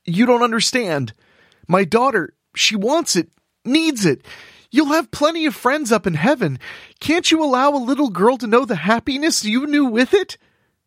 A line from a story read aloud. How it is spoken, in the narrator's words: Jebediah pleaded